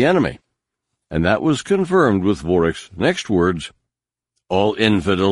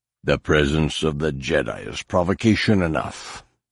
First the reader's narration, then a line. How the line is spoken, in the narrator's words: Vorek growled